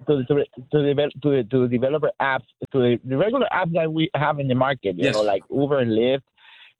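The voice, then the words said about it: Speaks with a noticeable accent. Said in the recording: “Sorry, my accent.”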